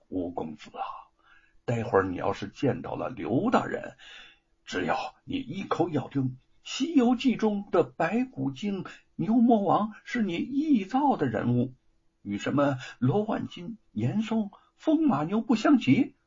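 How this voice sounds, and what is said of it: Hushed, secretive low voice. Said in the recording (Chinese): “悄悄走到吴承恩的身边，似顾无人，便小声的说”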